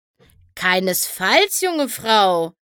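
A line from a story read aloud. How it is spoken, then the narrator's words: Calling out. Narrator (German): rief Flim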